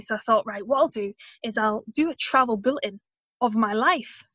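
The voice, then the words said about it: Unusual mixed accent. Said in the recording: “I've got such a strange accent, I've kind of traveled all over the place anyway”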